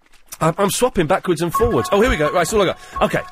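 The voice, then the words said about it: Out of breath, panting speech. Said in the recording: “I'm well out of breath. This is awful.”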